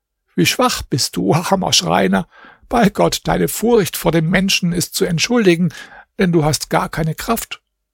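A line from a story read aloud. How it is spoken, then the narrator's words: Lion speaking laughingly. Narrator (German): Der Löwe sagte dann lachend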